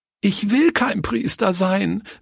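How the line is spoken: Cried out sobbing. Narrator (German): rief sie schluchzend

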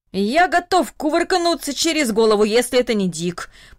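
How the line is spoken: Old man grumbling under breath. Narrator (Russian): пробурчал дедушка Даниил себе под нос

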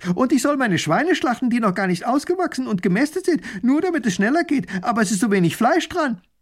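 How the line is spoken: Another voice calls out. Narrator (German): Ein anderer ruft

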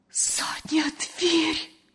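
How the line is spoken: Terrified whisper. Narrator (Russian): С ужасом прошептала Лена

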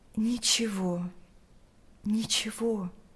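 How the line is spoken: Sad reply. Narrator (Russian): грустно ответила заключенная

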